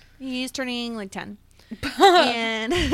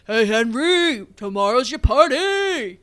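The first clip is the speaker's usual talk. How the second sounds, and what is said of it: Imitates a football player's voice. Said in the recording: “My impression of a football player ... that was pretty good. That was pretty good.”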